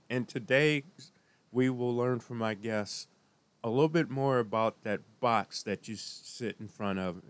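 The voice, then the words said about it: Sick-sounding, altered voice. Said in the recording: “As you can tell, my voice is a little different as I am struggling with an illness”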